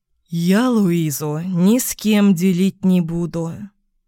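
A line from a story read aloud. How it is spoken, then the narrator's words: Muffled reply, head down. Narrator (Russian): глухо отозвался Ник, не поднимая головы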